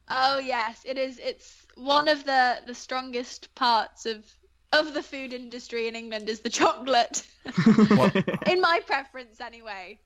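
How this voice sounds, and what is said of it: British accent. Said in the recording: “I love your accent. Again, you are very British.”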